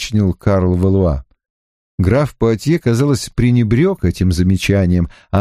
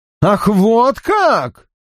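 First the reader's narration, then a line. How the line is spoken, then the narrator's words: Exclamation. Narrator (Russian): воскликнул король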